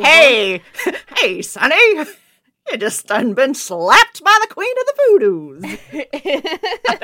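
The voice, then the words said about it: Put-on 1930s mid-Atlantic accent. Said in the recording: “Should I say it in a 1930s accent? ... That was good ... mid-Atlantic accent”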